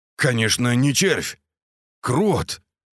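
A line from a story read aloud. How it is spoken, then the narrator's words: Shaky, joyless joke. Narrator (Russian): дрогнувшим голосом пошутил Андрей, но как-то совсем не весело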